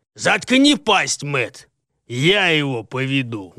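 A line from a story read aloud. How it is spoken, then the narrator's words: Barking shout. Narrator (Russian): гаркнул на своего товарища Ванберг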